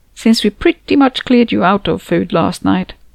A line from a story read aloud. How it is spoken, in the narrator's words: chuckled